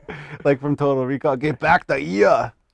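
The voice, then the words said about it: Arnold Schwarzenegger impression. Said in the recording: “a good Schwarzenegger accent ... That was dead on. I think I'm sitting right next to Arnold.”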